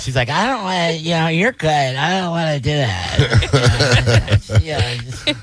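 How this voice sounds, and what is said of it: Imitates another person's voice. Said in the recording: “She doesn't sound like that. ... But that's my impression. ... why do you make me sound like I'm stupid all the time?”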